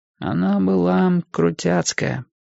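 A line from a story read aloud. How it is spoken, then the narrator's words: Otherworldly voice. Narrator (Russian): сказал Энди своим нездешним голосом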